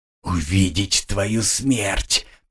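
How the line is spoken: Hoarse wheeze, monk. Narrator (Russian): просипел чернец

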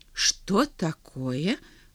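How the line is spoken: Bewildered king. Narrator (Russian): растерянно король

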